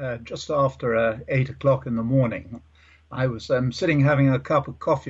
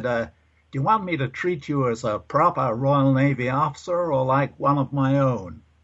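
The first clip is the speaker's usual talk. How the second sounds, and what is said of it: Terrible put-on American accent. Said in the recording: “a terrible American accent”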